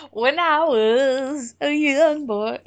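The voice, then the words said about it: Bad put-on southern US accent. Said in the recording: “sing the Black Parade in a southern accent. ... Wow, I have a bad southern accent, but that was like especially bad today.”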